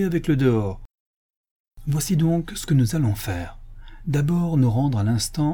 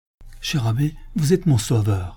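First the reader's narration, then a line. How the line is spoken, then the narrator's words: Hopeful exclamation, canon. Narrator (French): s'écria le chanoine le visage rayonnant d'espérance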